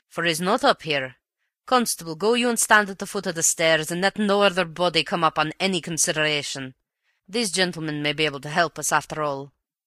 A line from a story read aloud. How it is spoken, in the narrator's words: growled the detective